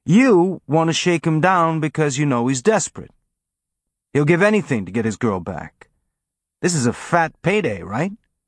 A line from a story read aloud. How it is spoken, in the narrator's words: Amos said, his tone friendly and conversational